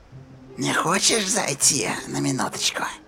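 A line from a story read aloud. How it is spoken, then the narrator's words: Whispered. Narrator (Russian): прошептала Рия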